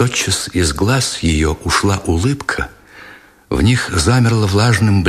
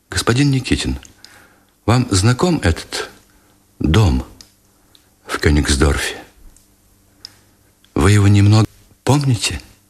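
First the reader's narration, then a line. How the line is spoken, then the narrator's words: Timid quiet question. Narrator (Russian): все так же робко спросила негромко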